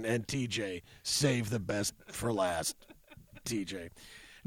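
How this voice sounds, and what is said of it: Imitates another person's voice. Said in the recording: “my Berman impression”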